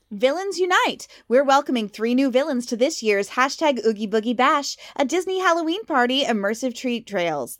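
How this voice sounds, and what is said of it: Disney announcer voice. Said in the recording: “That's my Disney announcer voice.”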